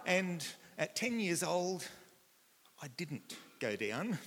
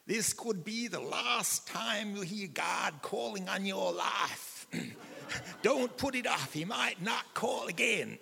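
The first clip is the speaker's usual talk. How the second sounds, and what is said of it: American accent imitating Billy Graham. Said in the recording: “I should put on an American accent.”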